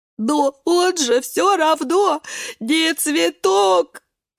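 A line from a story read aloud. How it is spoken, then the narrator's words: Sobbing. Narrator (Russian): рыдает свекла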